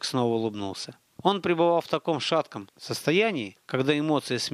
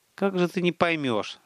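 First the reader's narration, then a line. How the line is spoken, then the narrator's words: Sighing. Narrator (Russian): вздохнул Столяров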